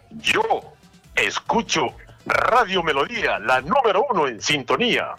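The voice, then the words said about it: Radio announcer voice. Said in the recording (Spanish): “con esa voz de locutor que tienes”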